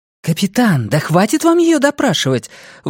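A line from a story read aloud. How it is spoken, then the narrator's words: Indignant, curt. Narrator (Russian): возмущенно бросила Хакль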